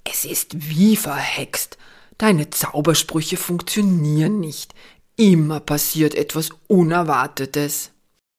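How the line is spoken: Growling. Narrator (German): Jolly knurrt

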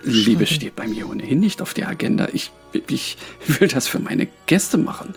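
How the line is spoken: Stammering. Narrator (German): stammelte er

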